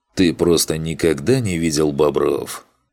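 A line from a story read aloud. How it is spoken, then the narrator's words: Amused grunt. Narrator (Russian): хмыкнул Макс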